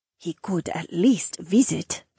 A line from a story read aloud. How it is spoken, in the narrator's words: Aaliyah muttered